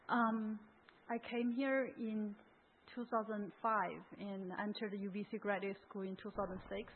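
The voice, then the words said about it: Hoarse, partly lost voice. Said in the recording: “lost my voice a little bit”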